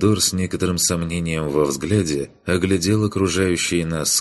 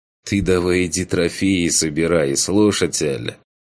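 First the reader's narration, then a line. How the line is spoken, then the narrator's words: Smirking. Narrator (Russian): Хмыкнул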